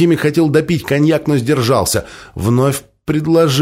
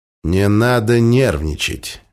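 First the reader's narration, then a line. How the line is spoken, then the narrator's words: Soft. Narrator (Russian): мягко произнес Мойза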